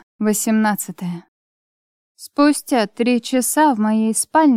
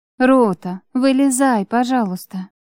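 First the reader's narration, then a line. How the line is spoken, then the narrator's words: Gentle request. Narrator (Russian): Ласково попросила я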